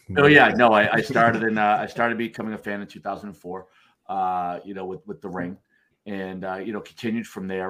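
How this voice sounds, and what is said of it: Noticeable regional accent. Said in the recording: “If you can't tell from the accent, born and raised”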